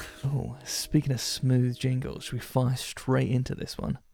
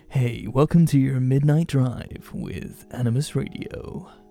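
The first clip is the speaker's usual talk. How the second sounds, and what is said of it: Smooth radio announcer voice. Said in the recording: “do a proper radio voice ... Do you just eat the microphone?”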